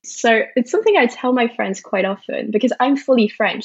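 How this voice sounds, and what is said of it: Affected British accent. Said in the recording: “your beautiful British accent ... the British accent is kind of performance art”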